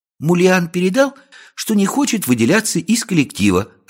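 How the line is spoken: Joyful report. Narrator (Russian): радостно доложила она

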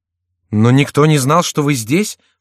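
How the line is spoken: Plain. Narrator (Russian): сказал Франсуа

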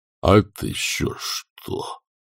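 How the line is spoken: Breathed close to face. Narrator (Russian): выдохнул он прямо в бледное лицо Маград

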